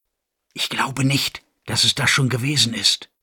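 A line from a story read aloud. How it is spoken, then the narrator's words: Very quiet whisper. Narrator (German): wisperte Bay McGraw so leise, dass sie garantiert nicht von der ganzen Runde verstanden werden konnte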